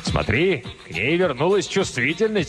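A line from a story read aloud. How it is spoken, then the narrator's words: Shout. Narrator (Russian): крикнул Кризераст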